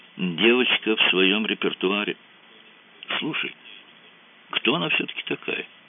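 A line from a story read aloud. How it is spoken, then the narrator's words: Quiet question. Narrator (Russian): тихонько спросил Мазур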